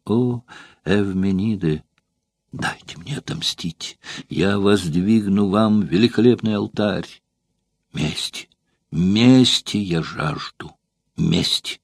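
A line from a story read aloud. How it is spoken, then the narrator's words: Sobbing, low, muffled voice. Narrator (Russian): зарыдав, произнесла вполголоса, кусая белыми зубами свои руки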